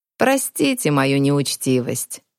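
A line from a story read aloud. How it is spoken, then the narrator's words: Creaky host. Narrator (Russian): проскрипел хозяин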